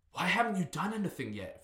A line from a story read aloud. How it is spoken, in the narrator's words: Fleshette gasped